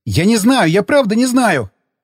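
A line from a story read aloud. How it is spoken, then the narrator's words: Yelled. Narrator (Russian): заорал он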